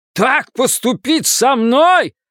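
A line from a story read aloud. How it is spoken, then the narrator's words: Yelling. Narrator (Russian): заорал он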